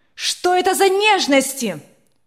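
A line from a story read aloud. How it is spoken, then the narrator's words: Angry shout. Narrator (Russian): Сверкая от гнева глазами, закричала она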